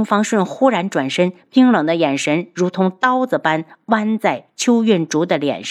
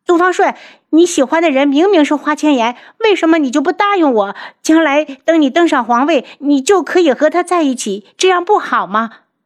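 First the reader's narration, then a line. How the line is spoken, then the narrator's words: Loud shout. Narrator (Chinese): 邱运竹在身后大喊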